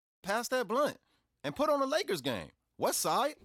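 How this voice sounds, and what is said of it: Put-on hard L.A. accent. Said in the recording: “the American accent ... that L.A. accent like that? You know, that hard ... doing this accent”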